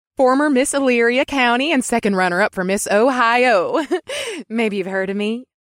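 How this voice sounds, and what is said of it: Perky female voice. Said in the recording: “in a perky voice”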